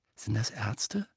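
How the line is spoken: Quiet question. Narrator (German): fragte er Ron leise

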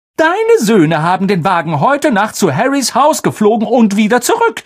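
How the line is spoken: Call. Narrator (German): rief Mrs

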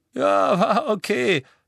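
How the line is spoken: Giggling. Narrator (German): kicherte Dean

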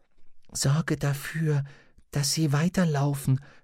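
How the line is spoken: Whisper. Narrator (German): flüsterte er zurück

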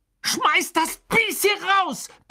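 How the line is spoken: Bellowed. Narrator (German): brüllte Ron

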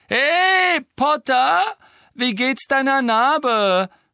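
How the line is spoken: Calling out. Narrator (German): rief Malfoy

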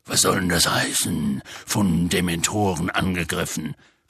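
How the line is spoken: Growling. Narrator (German): knurrte Hagrid

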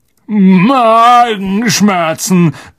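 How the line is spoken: Grunted. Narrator (German): grunzte Ron

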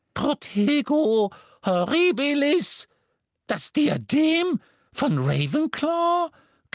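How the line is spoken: Squeaked. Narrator (German): quiekte Flitwick

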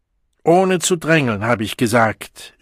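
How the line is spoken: Angry shout. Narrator (German): schrie der Hilfssäckelwart wütend

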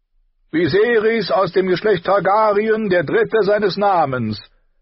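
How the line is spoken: High, pretty calling voice. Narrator (German): rief er mit hoher, hübscher Stimme

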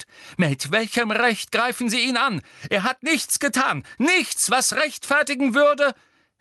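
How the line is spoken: Several girls crying out. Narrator (German): Hermine, Parvati und Lavender schrien auf

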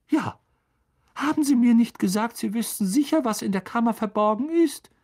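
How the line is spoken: Squeaky voice. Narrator (German): piepste Professor Flitwick

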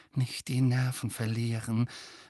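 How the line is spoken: Urgent whisper. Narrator (German): wisperte Hermine Harry und Ron eindringlich zu

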